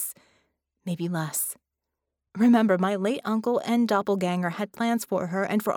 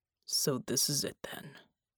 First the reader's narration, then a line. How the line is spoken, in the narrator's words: Bulwark muttered